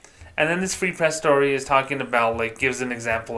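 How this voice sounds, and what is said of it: Usual voice. Nothing is said of it.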